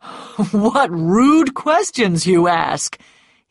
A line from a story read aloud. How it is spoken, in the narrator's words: he said, laughing